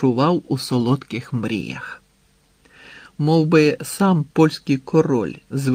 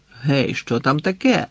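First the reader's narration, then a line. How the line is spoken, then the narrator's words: Angry exclamation. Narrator (Ukrainian): гнівно вигукнув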